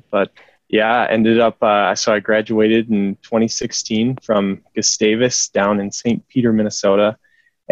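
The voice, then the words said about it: Minnesota accent. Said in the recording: “I'm originally from Minnesota, if you can't tell in my accent”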